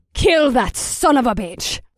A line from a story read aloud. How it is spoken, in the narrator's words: Samara snarled